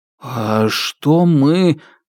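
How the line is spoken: Growling. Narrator (Russian): зарычав

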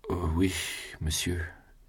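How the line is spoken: Weakened voice. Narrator (French): dit Julien d'une voix affaiblie

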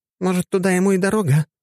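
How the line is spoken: Uncertain question. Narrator (Russian): неуверенно спросила Ежова

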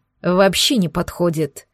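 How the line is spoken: Grim. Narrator (Russian): мрачно проговорил Гирзл

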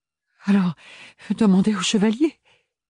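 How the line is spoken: Stammering. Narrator (French): bredouilla Ophélie

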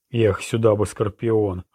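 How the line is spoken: Longing exhale. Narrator (Russian): выдохнул Роланд с такой тоской, что защемило сердце

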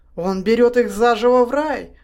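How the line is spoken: Hysterical exclamation. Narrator (Russian): истерически воскликнул Онгин

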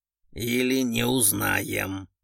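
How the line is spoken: Grumble. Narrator (Russian): пробурчал Орлов

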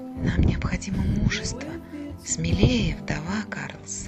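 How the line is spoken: Whisper in the ear. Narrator (Russian): кто-то шепнул на ухо

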